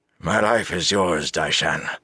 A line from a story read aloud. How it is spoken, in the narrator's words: he said in a thick voice